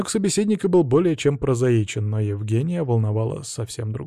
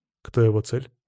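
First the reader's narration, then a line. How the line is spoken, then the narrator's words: Cold question. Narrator (Russian): холодно спросил Евгений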